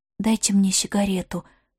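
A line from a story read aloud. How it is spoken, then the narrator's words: Whispering. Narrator (Russian): сказала Ивга шепотом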